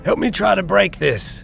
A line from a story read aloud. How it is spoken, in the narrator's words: Anton screamed, wrestling with a length of chain